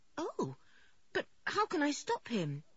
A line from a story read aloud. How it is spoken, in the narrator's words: asked George anxiously